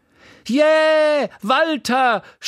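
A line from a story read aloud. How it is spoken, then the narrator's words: Woman shouting from audience. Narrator (German): schrie eine Frau im Publikum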